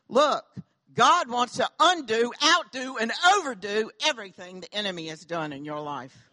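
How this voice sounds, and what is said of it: Southern American accent. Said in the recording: “Don't y'all love my southern accent?”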